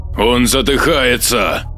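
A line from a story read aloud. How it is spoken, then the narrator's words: Growled. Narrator (Russian): Прорычал Маркус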